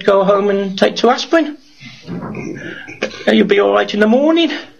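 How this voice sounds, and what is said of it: Brummie accent coming through. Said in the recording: “my bummy accent came out there because I got a bit excited”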